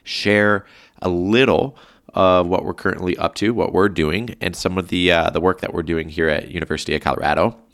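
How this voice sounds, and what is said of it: Sick, under-the-weather voice. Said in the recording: “you might be able to determine it and sort of hear it in my voice. I'm a little sick. I'm a little under the weather”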